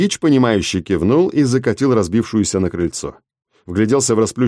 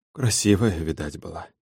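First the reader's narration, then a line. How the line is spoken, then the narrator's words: Pitying mutter. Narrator (Russian): жалостливо пробормотал он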